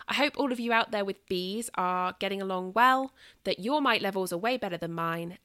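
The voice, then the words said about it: British Southern accent. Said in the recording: “nattering on at you in my British Southern accent”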